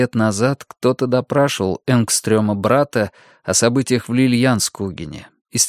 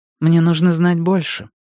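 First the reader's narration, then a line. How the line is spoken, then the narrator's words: Soft remark. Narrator (Russian): мягко заметила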